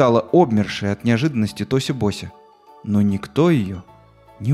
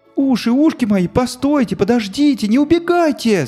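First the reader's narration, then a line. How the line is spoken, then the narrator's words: Shouted. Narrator (Russian): закричала Тоси Бося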